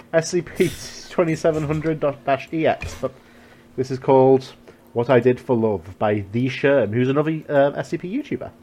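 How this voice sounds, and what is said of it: Accent pronouncing 'the' like 'V'. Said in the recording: “Your accent is... It's V! You're saying V!”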